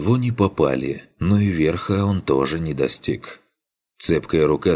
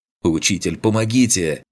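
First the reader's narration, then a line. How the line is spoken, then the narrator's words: Desperate shout. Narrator (Russian): крикнул Арлинг, чувствуя, что скоро сорвется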